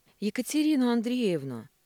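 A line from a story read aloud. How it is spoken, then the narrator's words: Guard's plaintive bleat. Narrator (Russian): жалобно проблеял охранник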